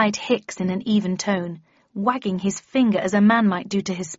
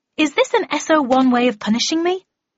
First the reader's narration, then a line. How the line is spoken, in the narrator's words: asked indignantly